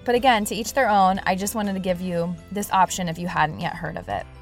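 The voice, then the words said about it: Congested voice from a cold. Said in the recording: “As you can probably tell in my voice, I have a bit of a cold. ... it's starting to hurt to talk”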